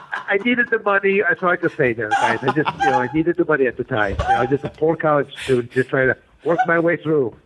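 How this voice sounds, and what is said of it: Detroit or Buffalo-sounding American accent. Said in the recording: “You have that accent that is like almost a Detroit white guy accent, but it reminds me of also Buffalo, New York, kind of”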